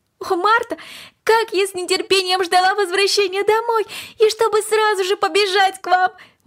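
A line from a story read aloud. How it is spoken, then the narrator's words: Eager exclamation. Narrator (Russian): воскликнула Корнелли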